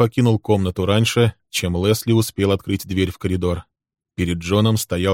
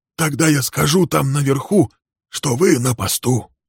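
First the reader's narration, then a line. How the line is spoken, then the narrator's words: Whispered. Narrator (Russian): шепнул Билл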